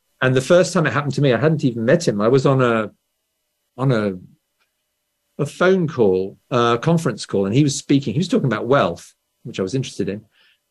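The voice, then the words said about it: Traditional posh BBC English accent. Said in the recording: “this accent, you may know, this is this is the accent which the BBC sells to foreigners ... English ... Traditional ... normally easy to understand ... everybody spoke like this, or a bit posh”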